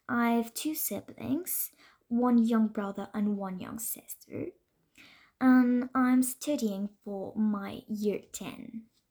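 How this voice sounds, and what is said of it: French accent. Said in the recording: “I come from France, so maybe that explains my accent.”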